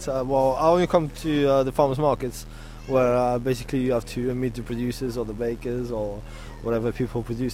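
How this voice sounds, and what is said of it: French-accented English. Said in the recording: “vous êtes français en plus... I did hear your accent before as well”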